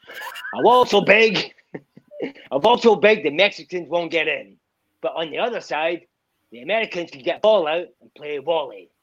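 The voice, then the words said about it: Imitates another person's voice. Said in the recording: “that was a great impression, by the way, really fantastic ... let's hear your Donald.”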